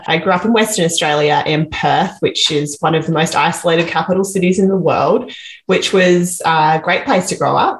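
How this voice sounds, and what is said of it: Australian accent. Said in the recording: “as you might be able to tell from my accent, I'm from Australia”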